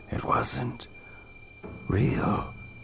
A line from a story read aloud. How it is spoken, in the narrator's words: Counselor Hutton muttered to himself